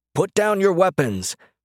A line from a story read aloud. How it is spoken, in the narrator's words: Hart shouted at the other two